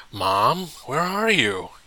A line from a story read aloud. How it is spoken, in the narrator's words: yelled